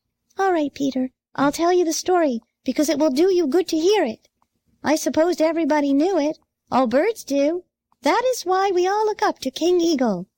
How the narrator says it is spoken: replied Sammy

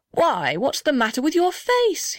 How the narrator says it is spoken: he cried

